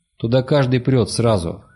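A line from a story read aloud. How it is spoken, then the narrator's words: Mocking reply. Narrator (Russian): ответил мрак насмешливо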